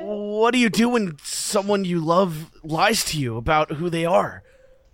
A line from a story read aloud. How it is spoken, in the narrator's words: I asked sadly with a sigh